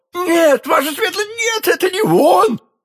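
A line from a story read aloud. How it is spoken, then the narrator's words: Yelling. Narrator (Russian): завопил Бонасье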